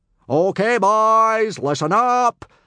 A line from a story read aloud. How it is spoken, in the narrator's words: bellowed Gobber